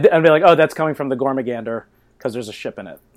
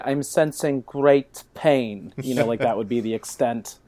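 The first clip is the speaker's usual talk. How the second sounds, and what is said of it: Good impression of a TV character. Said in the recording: “That was a very good Troy impression”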